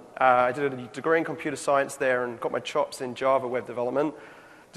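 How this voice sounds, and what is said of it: London English accent. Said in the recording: “my horrible accent that I was born in London”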